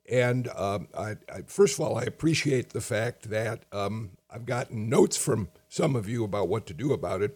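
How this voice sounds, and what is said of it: Hoarse, strained voice. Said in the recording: “I've been losing my voice, I've been hoarse.”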